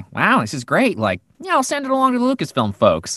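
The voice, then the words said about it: Imitates another person's voice. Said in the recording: “that's my impression of him, but it is what he sounds like”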